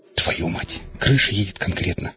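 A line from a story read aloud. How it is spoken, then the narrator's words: Quiet dazed cursing. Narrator (Russian): Тихо выругался я вслух, понемногу приходя в себя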